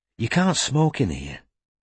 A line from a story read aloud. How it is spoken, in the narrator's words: she reminded him gently